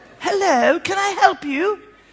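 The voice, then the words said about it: Imitated posh accent. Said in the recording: “She speaks in an accent that I've never heard before ... She goes really posh.”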